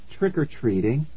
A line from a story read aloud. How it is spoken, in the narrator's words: Nikki said calmly